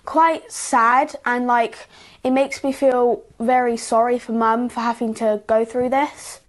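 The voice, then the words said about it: Beautiful English (British) accent. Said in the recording (Russian): “Красивый все-таки акцент у англичан”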